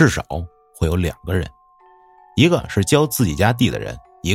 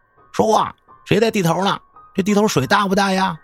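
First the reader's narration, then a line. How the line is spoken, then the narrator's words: Fearful shouting. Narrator (Chinese): 喊一些这有的没的，是因为害怕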